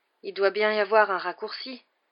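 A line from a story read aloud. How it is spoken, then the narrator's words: Panting from climbing stairs. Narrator (French): haleta Ron tandis qu'ils grimpaient leur 7e escalier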